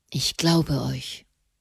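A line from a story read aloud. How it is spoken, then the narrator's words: Murmuring. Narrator (German): murmelte Gregor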